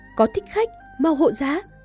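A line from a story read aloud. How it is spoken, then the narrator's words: Loud shout. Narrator (Vietnamese): có người hét lớn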